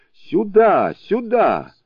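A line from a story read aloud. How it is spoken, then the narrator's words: Shouting. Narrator (Russian): кричал ему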